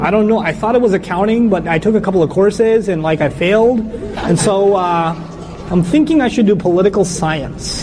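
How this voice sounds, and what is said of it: Speaks with an unusual accent. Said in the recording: “strange accent”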